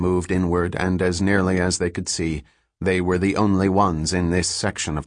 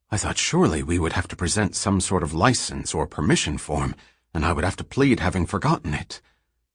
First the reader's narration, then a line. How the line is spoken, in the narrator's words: Seldon whispered